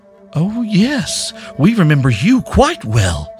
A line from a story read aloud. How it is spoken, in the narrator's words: cried the first of them, mock surprise